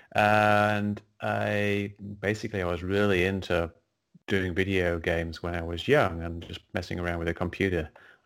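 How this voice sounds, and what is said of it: English accent. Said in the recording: “I grew up in England, as you can probably tell by the accent.”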